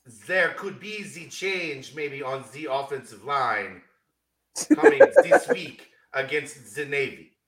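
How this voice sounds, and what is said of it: Bad fake German accent, sounds French. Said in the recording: “your attempt at a terrible German accent? ... That's still French ... Pepe Le Pew flashbacks”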